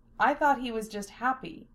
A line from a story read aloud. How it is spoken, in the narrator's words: she said smoothly